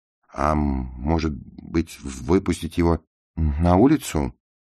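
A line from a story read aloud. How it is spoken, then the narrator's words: Stuttering, embarrassed. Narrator (Russian): Чет стал заикаться, и постепенно его лицо залилось краской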